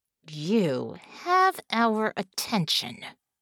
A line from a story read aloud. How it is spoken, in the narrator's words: Bella said through gritted teeth